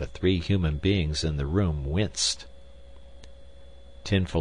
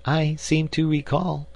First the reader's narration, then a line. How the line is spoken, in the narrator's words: Rose Thinker chirped somewhat unkindly